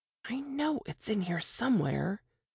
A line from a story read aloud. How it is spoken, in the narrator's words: Jane mumbled